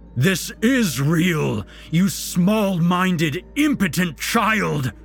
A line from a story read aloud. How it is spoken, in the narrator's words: Santa roared, straining against the cables